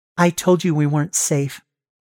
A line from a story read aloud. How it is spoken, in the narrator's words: Liz says